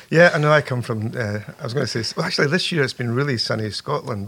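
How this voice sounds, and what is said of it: Scottish accent. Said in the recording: “You have an accent that is not from the Deep South, where I tend to record people. You're from Scotland.”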